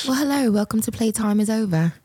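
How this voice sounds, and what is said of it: Put-on British accent. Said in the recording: “you brought out the British accent today.”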